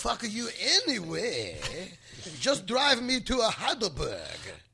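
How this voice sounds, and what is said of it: Put-on foreign accent. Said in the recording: “thank you for the offensive accent”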